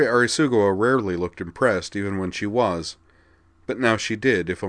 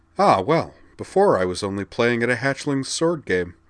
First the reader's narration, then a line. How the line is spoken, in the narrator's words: Liza replied